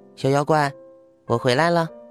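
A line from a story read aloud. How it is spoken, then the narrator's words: Quiet unsmiling mutter. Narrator (Chinese): 她没有像往常一样笑，只是小声嘀咕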